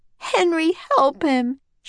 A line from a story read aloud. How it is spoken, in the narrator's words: sobbed